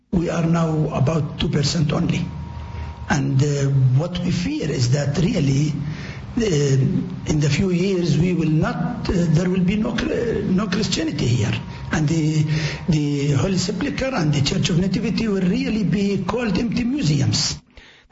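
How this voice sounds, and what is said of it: Heavy accent, hard to understand. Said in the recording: “It's difficult to understand through his accent”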